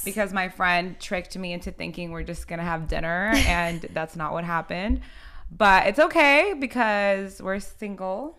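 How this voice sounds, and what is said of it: Rusty, strained voice. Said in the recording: “As you can tell from my voice, it's like rusty ... definitely struggling”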